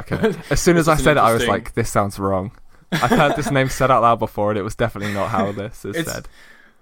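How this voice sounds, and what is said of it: British accent. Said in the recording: “I don't know if it's Brits or if it's your accent”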